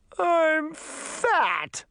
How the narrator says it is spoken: cried

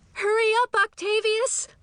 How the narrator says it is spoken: I yelled

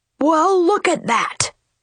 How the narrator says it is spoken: bellowed Papa Bear

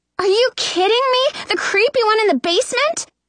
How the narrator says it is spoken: I'm shrieking

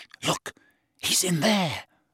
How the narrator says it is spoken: she breathed in Harry's ear

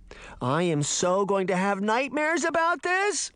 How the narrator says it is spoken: Daphne whined

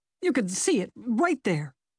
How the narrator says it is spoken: the man sputtered

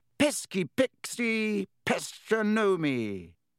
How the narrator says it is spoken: He bellowed

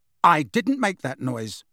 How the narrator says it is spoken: said Harry firmly

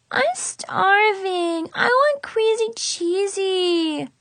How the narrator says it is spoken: whined

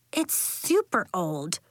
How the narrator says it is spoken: she said

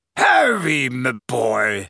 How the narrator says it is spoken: said a booming voice from behind them

